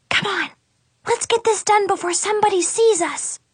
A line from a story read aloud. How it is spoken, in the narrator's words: whisper shouted